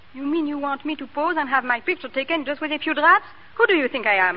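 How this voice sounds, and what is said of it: Speaks with an accent. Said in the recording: “you've got an accent.”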